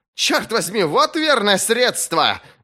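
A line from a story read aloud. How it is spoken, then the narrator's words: Howling yell. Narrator (Russian): вопил лорд Смунд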